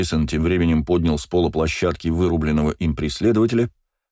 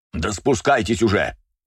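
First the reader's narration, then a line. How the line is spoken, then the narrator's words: Barking shout. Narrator (Russian): рявкнул он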